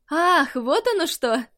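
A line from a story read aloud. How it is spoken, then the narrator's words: Laughing. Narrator (Russian): посмеялся Чунтао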